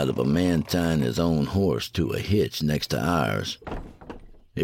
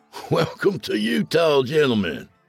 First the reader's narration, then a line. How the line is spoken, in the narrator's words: he laughed